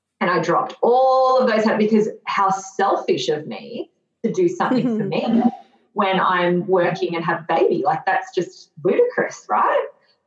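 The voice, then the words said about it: Sarcastic tone. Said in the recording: “Hear the sarcasm in my voice”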